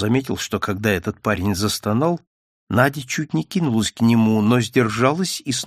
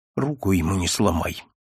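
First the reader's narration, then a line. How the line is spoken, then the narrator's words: Quiet, through gritted teeth. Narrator (Russian): Сказала только тихо сквозь зубы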